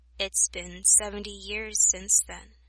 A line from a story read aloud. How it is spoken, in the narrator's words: Yato softly said